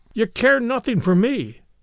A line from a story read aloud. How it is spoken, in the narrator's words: cried the husband